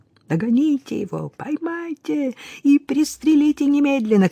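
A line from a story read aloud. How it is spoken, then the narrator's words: Shouting. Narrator (Russian): кричал Питале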